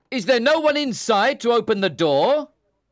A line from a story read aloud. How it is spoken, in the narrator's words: I shouted back